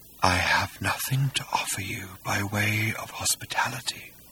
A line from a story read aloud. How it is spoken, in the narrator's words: said Hakdar faintly